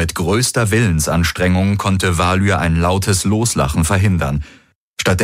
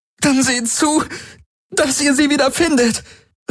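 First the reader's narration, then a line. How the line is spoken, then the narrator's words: Calling out in pain. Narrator (German): rief Ylana unter Schmerzen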